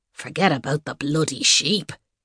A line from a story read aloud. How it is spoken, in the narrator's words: he growled